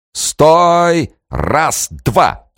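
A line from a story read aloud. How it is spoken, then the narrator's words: Booming command. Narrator (Russian): трубным голосом скомандовала Бочарова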